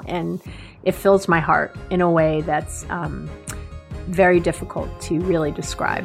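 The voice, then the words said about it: Emotional voice cracking. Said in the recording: “I know you hear my voice cracking.”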